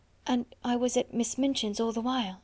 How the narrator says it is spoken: half whispered

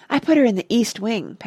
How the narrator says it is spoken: panted H

